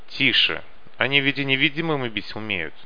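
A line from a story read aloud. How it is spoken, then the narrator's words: Sharp hushing rebuke. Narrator (Russian): прикрикнул на него Малек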